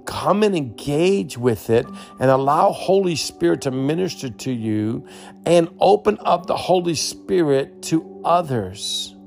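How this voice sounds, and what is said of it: Excited, energized voice. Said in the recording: “As you can tell, you can hear it in my voice. I'm so excited.”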